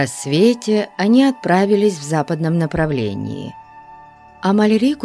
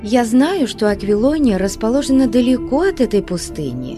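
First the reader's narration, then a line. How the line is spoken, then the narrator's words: Plain. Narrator (Russian): сказала она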